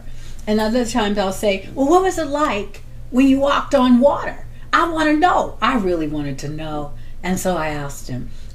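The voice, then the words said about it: Voice rising from deep to high. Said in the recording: “my voice is going from the deep part, which is my normal speaking voice, all the way up here because I can go from zero to 180”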